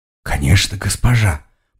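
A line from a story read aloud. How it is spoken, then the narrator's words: Half-voiced mutter. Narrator (Russian): пробормотал в полголоса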